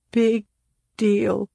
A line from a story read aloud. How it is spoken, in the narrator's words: Claudia sobbed